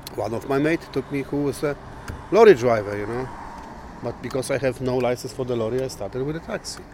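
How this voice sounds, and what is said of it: Polish-accented English. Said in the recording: “You don't sound like an Ely accent. ... No, I'm from Poland.”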